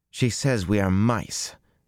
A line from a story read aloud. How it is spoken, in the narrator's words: Beslin said bitterly